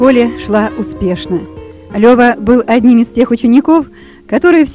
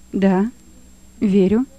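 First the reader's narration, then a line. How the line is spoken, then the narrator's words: Calm answer. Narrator (Russian): ответил, спокойно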